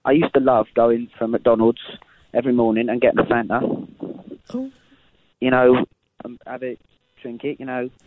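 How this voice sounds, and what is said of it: Shifting put-on regional accents. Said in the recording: “Your accent's changing ... You're going all around the country, son. Pick an accent and stick with it.”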